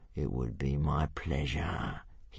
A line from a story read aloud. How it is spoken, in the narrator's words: he hissed